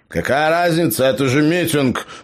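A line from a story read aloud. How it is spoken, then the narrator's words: Grumble. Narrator (Russian): пробурчал гном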